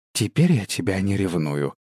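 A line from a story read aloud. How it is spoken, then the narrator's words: Whisper. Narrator (Russian): прошептала она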